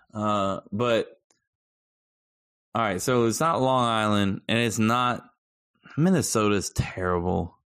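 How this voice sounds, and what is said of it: Noticeable regional accent. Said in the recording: “I get asked of my accent every day almost. Where are you from?”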